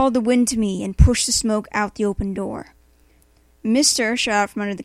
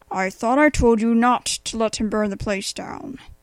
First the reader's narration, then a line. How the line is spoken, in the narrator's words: I grumbled at the dog